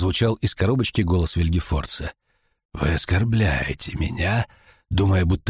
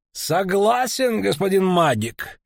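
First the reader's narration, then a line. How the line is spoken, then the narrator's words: Outwardly carefree laugh. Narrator (Russian): внешне беззаботно рассмеялся охотник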